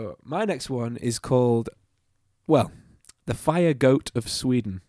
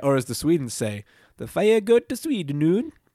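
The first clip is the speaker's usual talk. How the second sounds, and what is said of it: Comedic put-on Swedish accent. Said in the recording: “That was accent humor.”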